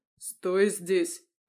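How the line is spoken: Growl in ear. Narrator (Russian): прорычал Михаил мне в ухо

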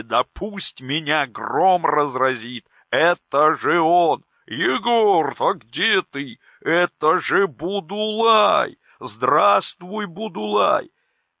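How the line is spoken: Joyful shout. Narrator (Russian): Шеларо и тоже радостно закричала так, что ее голос устало тесно во враге

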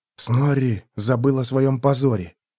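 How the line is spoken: Quiet. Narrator (Russian): тихо сказал Феликс

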